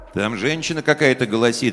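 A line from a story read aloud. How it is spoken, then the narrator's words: Plain. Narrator (Russian): сказали от двери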